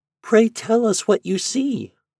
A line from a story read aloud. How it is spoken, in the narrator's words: pleaded a little vine